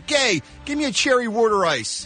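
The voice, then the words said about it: Exaggerated Philadelphia accent. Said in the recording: “Accent. ... It's a charming accent. ... It's the opposite of lovely and charming. ... You make Boston sound refined.”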